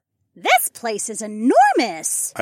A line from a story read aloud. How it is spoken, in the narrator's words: Ilara squeaked